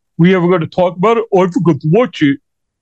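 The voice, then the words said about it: Uncanny imitation of another man's voice. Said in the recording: “It's incredible how you mimic his voice. Like it's uncanny.”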